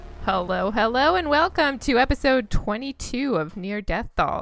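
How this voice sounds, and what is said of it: Usual voice. Nothing is said of it.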